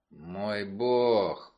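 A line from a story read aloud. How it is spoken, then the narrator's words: Moaning. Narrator (Russian): простонал Адриан Дарт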